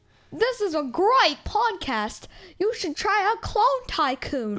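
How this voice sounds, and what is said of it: Attempted British accent. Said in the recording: “This is trying to be British.”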